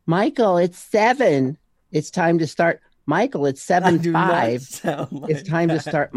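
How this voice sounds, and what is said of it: Nagging imitated voice of a wife. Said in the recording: “You sound like my wife. ... If I sound that naggy”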